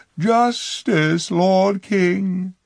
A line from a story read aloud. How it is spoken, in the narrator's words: she cried